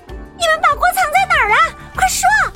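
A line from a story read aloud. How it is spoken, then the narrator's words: Several voices shouting. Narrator (Chinese): 他们喊道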